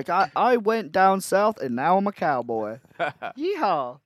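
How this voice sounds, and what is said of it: Put-on weird Southern accent. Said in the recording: “he's going to have a southern weird accent.”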